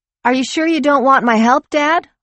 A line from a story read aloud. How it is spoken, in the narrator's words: Lori called out to the kitchen